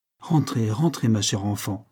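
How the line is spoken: Sad, tender tone. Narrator (French): dit-il d'un ton de triste tendresse

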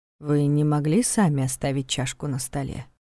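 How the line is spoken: Disappointed sigh and smirk. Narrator (Russian): Диана вздохнула и, кажется, даже усмехнулась, и все это прозвучало с нотками разочарования

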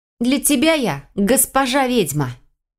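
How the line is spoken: Barking. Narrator (Russian): рявкнула

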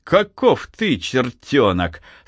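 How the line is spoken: Laughing. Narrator (Russian): засмеялся Архип

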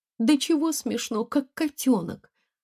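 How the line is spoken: Laughing. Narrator (Russian): Она засмеялась

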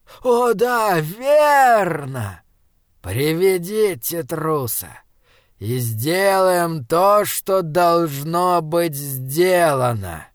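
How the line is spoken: Melodic voice. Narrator (Russian): Господин первый заговорил мелодичным голосом

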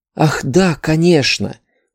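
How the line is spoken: Whispered with a bared grin. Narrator (Russian): прошептала со скалом, похожим на его собственный

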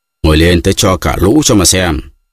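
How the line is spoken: Shout. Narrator (Vietnamese): Mikulka lại quát

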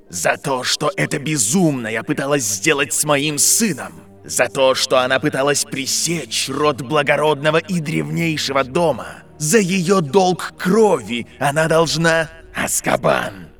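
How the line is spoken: Man growling. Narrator (Russian): Зарычал мужчина с лицом, исчерченным шрамами

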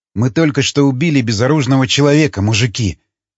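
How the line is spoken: Grumbling. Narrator (Russian): проворчал Ломака

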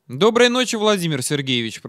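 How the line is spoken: Grumbling into phone. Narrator (Russian): пробурчал я в трубку

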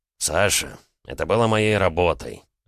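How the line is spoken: Sighing. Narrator (Russian): вздохнул Лёня

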